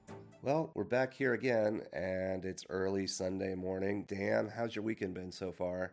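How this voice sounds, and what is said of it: Throaty voice from a cold. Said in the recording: “My voice is a little off today ... this nice little cold so that I can have a more throaty voice”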